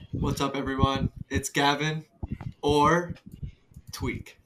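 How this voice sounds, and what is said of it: Put-on serious announcer-like voice. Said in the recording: “put on this like voice? ... You get so serious.”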